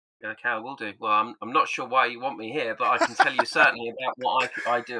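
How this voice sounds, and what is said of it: Distinct foreign accent. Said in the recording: “Not as cool an accent as the South African host, but a pretty good accent.”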